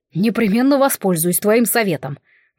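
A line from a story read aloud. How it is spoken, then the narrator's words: Breathless growl. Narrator (Russian): прорычал младший принц, восстанавливая дыхание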